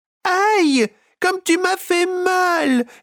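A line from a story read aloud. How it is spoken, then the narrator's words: Moaning voice. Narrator (French): gémit la voix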